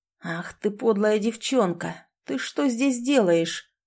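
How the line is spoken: Angry hiss. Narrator (Russian): прошипел он

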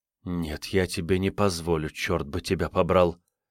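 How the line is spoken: Hissed. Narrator (Russian): прошипела

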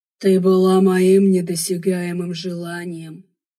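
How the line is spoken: Enchanted breathless alien voice. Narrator (Russian): Завороженно выдохнул снежный инопланетянин

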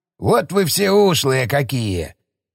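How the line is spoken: Skeptical snort. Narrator (Russian): снова скептически хмыкнул Шестаков

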